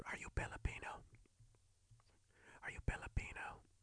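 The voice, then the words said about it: Whispered question. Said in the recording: “whispers ... Why the hell are you whispering?”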